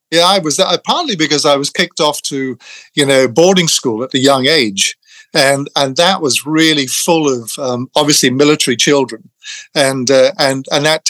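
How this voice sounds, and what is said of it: Posh English accent. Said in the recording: “your accent is, one might consider, posh, or on the echelon of poshness”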